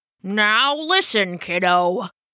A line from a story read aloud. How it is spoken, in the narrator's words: Old Cap would growl